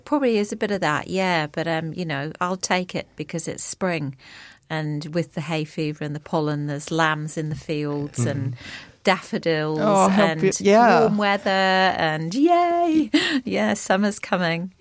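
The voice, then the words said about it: Hoarse voice. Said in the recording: “I'm a bit hoarse, actually. Got a bit of the lurgy that's going around”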